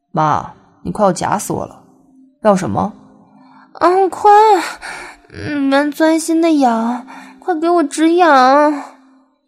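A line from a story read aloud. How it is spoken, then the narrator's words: Laughing. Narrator (Chinese): 笑道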